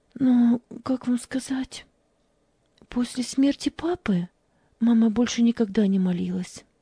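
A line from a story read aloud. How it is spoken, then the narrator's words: Trembling voice. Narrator (Russian): Дрожащим голосом ответила она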